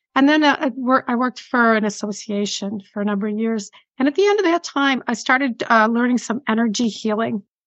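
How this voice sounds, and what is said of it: Buffalo, New York accent. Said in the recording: “Buffalo, New York accent ... it's still there after all these years”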